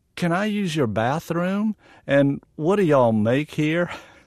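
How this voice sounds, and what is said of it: Put-on Southern US accent. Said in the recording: “in my best Southern accent”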